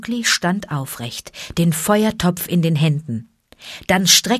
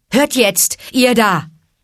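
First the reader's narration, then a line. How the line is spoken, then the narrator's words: Calling out. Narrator (German): rief er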